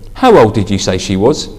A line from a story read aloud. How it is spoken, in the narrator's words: asked Gary Kelvin